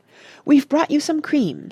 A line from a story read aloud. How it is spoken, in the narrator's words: said Penelope hastily